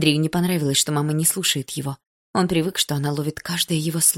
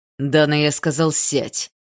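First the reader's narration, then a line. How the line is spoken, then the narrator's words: Sharp repetition. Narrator (Russian): повторил Андрей резким тоном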